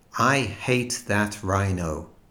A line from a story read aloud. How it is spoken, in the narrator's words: said the woman